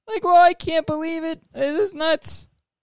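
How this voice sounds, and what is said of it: Nasal stuttering Morty impression. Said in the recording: “Morty impression ... It's like a more nasally, like, Shaggy, I guess. And, like, a lot of stuttering.”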